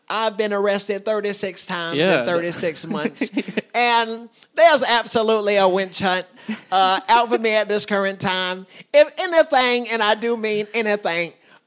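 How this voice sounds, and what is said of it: Comedic impression of a comedian. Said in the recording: “A fucking great impression, too”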